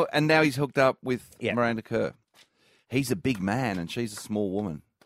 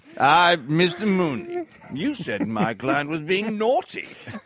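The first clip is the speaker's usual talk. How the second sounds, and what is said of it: Impersonates a lawyer character. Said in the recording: “lawyer impersonation”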